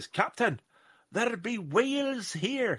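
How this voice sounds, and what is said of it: Bad put-on Scottish accent. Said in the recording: “that was a terrible Scottish accent, and I apologise”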